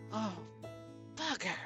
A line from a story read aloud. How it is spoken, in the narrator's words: she breathed